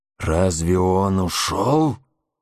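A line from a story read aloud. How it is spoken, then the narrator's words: Deep guttural chest voice. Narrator (Russian): спросил Магуа глубоким, гортанным голосом, как бы выходившим из самой глубины груди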